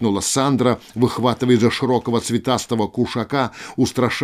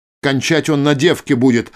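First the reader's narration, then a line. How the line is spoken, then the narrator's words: Barking, sorceress. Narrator (Russian): рявкнула волшебница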